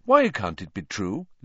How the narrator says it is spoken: Lupin said calmly, as though they were in class and Hermione had simply spotted a problem in an experiment with Grindelows

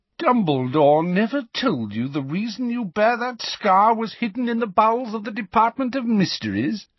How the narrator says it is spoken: Malfoy sneered

